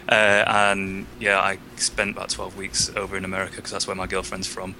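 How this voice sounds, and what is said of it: British accent. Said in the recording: “As you can probably tell by my accent, I'm not from America. I'm from Britain.”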